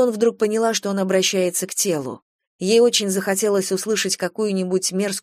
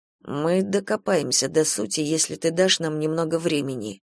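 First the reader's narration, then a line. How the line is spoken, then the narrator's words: Fairly quiet. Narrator (Russian): Сказал довольно тихо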